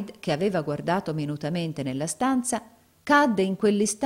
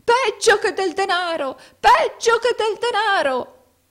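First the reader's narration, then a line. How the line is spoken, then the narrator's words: Shouting old man. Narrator (Italian): gridò il vecchio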